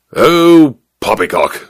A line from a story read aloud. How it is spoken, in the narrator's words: snorted the major